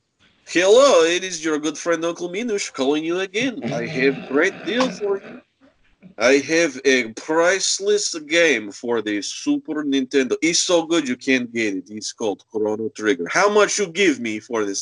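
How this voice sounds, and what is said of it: Silly put-on accent. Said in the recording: “put on some stupid accent”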